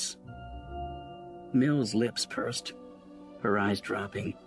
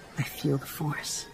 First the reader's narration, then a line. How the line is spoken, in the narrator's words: she whispered